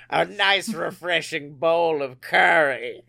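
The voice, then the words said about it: Imitates another person's voice. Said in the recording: “I'm going to do a Curly impression every time you bring it up... good Tim Curry impression”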